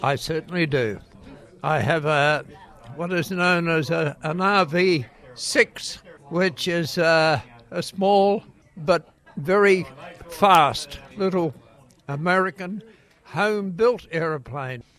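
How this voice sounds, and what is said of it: Hoarse voice from a cold. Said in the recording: “I've had a cold. That's why I sound like a really old man.”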